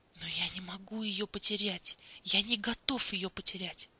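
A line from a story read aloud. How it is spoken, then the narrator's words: Mumbling. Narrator (Russian): бормотал Дэнни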